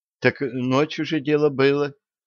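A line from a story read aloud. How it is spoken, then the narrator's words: Sigh. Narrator (Russian): вздохнула Янка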